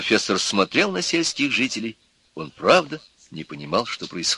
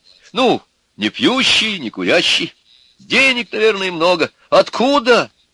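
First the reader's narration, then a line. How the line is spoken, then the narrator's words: Exclaimed. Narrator (Russian): воскликнула Нюра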